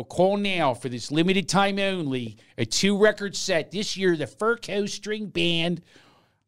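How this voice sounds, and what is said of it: Put-on Philadelphia accent. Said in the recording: “A Philadelphia accent? ... My favorite Philadelphia accent is the Mummers commercial.”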